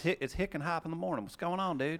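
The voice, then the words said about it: Rural American hick character voice. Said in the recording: “In his actual voice.”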